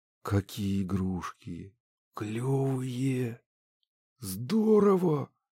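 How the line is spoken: Breathless. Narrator (Russian): выдохнула Котова

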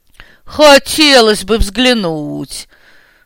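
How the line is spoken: Booming laugh. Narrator (Russian): Гулко хохотнул Брюхов

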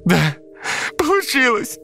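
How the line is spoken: Relieved shout. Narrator (Russian): закричала Катя от облегчения

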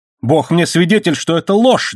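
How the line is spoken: Wild shout. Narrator (Russian): дико крикнул он

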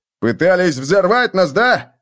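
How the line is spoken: Barked from the stairs. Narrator (Russian): рявкнули с лестницы

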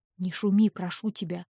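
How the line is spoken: Quiet husband. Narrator (Russian): тихо сказал муж

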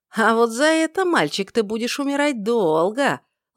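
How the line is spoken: Drawn-out drawl. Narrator (Russian): протянул ватажник

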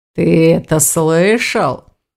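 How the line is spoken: Drawled mockingly. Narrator (Russian): протянул Аристакес, ехидно

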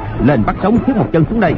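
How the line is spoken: Shouted command. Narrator (Vietnamese): Hoàng Nhan Hồng Liệt quát

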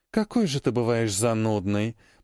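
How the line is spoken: Grumbling. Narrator (Russian): проворчала она

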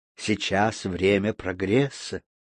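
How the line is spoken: Apothecary's solemn declaration. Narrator (Russian): торжественно заявил аптекарь

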